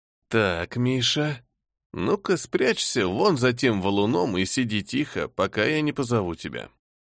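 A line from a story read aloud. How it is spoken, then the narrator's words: Quiet. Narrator (Russian): проговорил я негромко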